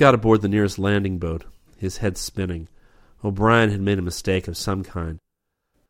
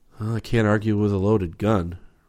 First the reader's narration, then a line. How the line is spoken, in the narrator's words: Rip said wearily